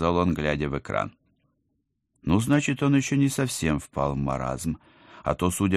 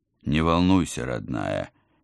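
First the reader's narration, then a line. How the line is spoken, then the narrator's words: Uncertain, smiling. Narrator (Russian): неуверенно улыбнулся командор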